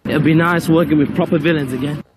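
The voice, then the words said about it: Unconvincing put-on Cockney accent. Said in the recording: “English Cockney accent ... None of those vowels really hit their targets”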